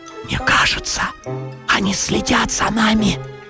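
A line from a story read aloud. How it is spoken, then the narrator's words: Whisper. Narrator (Russian): прошептал Гриша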